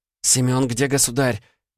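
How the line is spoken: Young woman moaning. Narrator (Russian): простонала девушка

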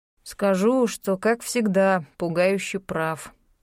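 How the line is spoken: Drawl. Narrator (Russian): протянул Реми

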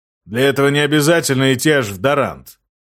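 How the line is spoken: Stocky man grumbling. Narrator (Russian): проворчал коренастый

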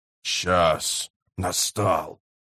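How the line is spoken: Low, creaky voice. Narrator (Russian): сказал Фибрил низким, скрипучим голосом

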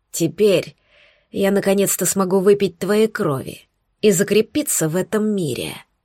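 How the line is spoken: Hoarse, inhuman rasp. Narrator (Russian): прохрипел он, теряя остатки человеческого

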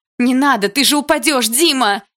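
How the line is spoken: Frightened shout. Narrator (Russian): испуганно закричала я

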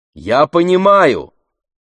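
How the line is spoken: Shouted reply. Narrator (Russian): прокричала в ответ Ифемелу

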